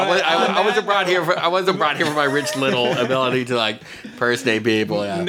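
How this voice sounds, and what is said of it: Usual voice. Nothing is said of it.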